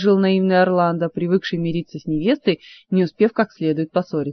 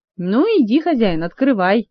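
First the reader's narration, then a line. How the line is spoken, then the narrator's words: Giggling. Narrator (Russian): хихикнул Жак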